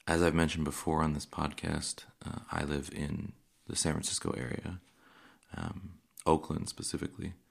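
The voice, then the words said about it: Worn, slightly hoarse voice. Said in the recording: “You can probably also hear this week that my voice is a little gone”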